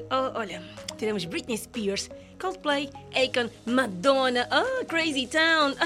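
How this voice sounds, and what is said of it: Usual voice. Nothing is said of it.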